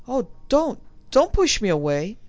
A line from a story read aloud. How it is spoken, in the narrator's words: She cried out